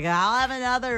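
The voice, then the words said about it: Imitates a drunk person's voice. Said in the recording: “That was my drunk, drunk impersonation.”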